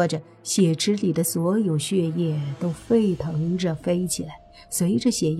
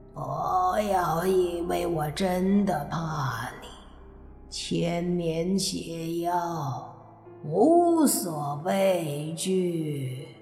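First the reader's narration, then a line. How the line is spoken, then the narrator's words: Roaring. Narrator (Chinese): 血妖只得大吼着说道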